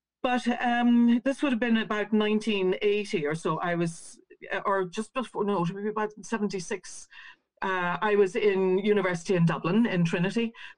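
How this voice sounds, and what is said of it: Slight Northern Irish accent. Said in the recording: “a bit of a Northern Ireland accent in my speech”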